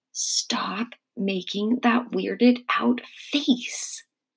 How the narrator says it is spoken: I whispered to Mom

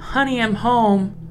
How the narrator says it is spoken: the imposter's voice yelled out

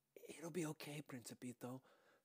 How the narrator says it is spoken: whispered

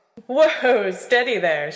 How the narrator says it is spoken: she said, a note of laughter in her voice

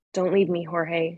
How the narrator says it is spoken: she whispered

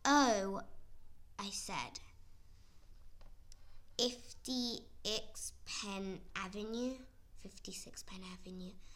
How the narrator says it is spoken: I said slowly as I could, so he would understand me

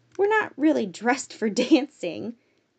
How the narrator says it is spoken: Natalie laughed, hoping they might forget about that part of the night

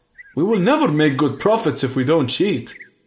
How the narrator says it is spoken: shouted

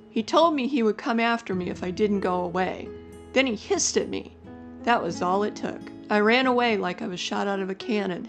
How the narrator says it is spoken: laughed

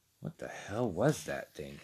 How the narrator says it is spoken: he whispered into the darkness

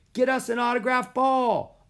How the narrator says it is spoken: a boy yelled

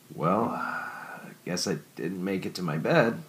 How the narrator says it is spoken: Sean uttered weakly

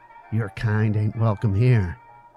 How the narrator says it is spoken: said through clenched teeth

